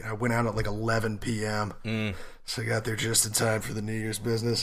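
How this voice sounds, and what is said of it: Rough, sick-sounding voice. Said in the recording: “I am sick. I have some horrible like chest cold and throat thing ... hungover and sick ... my voice sounds kind of fucked up and I'll try to cough away from the mic”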